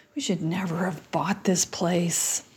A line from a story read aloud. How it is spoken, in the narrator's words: mutters